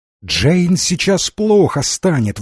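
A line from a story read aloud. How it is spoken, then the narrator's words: Exclamation. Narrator (Russian): воскликнула хозяйка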